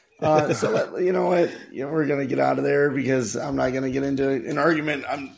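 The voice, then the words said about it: Fried, hoarse voice. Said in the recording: “My voice is a little fried”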